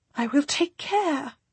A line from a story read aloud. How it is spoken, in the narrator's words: she says breathlessly